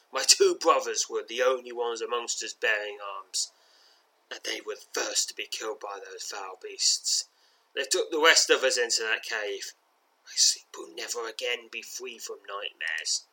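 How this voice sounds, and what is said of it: Wavering, tearful voice. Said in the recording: “choking back tears as he speaks in a wavy voice.”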